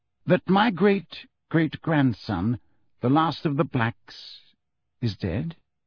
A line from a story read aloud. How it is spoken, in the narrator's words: said Phineas Nigellus, slowly